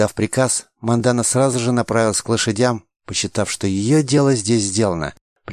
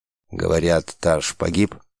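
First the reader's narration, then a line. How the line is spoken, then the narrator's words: Quiet question. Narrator (Russian): спросил негромко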